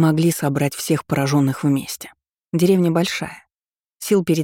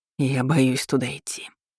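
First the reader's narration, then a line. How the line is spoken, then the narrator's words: Whispered. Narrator (Russian): шептал он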